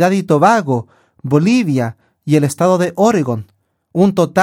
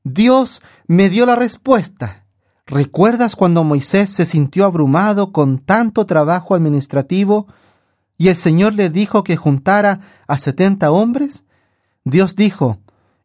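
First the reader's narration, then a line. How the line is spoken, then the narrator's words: Exclaiming. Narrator (Spanish): exclamó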